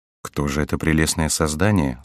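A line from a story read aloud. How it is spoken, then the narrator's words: Plain. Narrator (Russian): спросил Генрих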